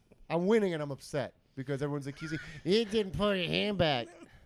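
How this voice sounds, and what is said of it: Imitates another person's voice. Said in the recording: “That's Jess, by the way, who I'm doing an impression of.”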